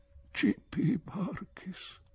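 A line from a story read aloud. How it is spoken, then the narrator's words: Weak murmur. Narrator (Italian): mormorò debolmente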